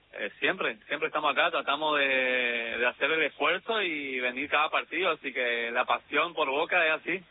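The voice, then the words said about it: Non-Rioplatense Argentine regional accent. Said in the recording (Spanish): “te noto alguna tonada, algo ajena a la rioplatense”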